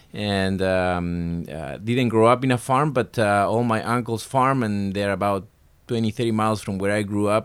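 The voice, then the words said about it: Argentine-accented English. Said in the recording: “You hail from the great country of Argentina, right? ... I have a southern accent. I like to tell people from deep south, South America.”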